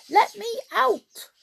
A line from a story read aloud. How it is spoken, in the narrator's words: he squeaked in a voice like a mouse